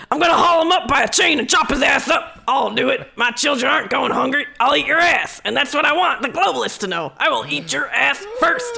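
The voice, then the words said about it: Impression of Alex Jones. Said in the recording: “you're going to do your impression?”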